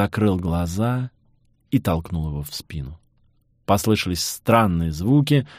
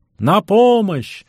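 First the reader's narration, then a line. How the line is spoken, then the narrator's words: Shout. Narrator (Russian): закричал я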